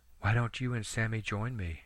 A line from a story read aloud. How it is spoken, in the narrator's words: she asked softly